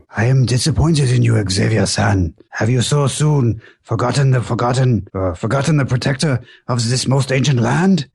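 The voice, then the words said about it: Thick put-on Japanese accent. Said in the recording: “I got some variance in my Japanese accents. That was a little thicker.”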